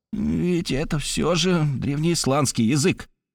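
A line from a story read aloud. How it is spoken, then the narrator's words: Muttering under breath. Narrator (Russian): бормотал он себе под нос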